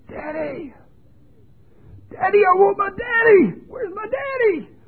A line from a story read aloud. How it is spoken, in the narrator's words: He was screaming at the top of his lungs